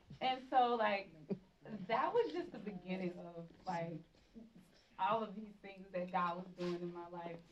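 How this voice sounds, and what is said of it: Thick Southern American accent. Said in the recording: “I have a very southern thick accent”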